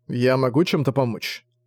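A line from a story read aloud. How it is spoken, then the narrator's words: Plain. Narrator (Russian): спросил Зориан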